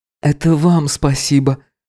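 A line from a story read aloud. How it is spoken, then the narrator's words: Soft, smiling. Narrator (Russian): она мягко улыбнулась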